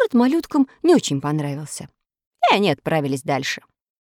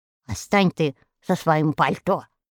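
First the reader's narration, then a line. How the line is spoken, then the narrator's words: Angry harelipped reply. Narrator (Russian): сердито ответил заячья губа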